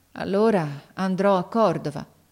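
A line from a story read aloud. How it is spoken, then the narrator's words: Resigned sigh, boy. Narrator (Italian): Il ragazzo mise un sospiro, poi disse con rassegnazione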